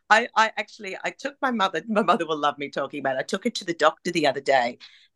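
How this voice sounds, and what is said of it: Broad Australian accent. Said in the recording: “I think my accent's even more broad, more broad Australian every time I come back.”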